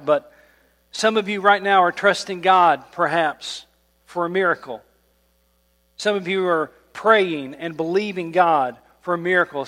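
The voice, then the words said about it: Strained, failing voice. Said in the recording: “I hope I can get through this. My voice is giving out.”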